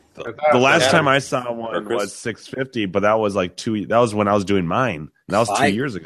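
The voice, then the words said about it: Rough, worn-out voice. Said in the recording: “My God, my voice is terrible. ... I'm just gonna keep drinking until I'm dehydrated”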